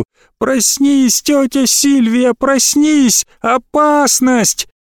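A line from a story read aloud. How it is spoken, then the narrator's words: Shouting. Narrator (Russian): Голос Малькольма кричал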